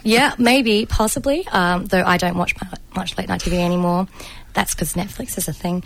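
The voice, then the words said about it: Raspy voice. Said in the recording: “my voice is a little raspy tonight because it was also very dusty and I inhaled most of it”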